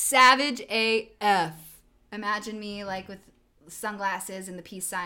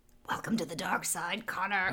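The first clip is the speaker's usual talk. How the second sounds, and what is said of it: Poor Emperor from Star Wars impression. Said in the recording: “Was that your impression of the Emperor from Star Wars? ... It was not good.”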